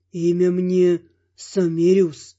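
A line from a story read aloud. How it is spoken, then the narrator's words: Calm. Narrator (Russian): отвечал незнакомец спокойно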